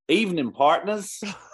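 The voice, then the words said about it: Put-on Texan accent. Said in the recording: “I'm gonna have to read this one with my Texas accent.”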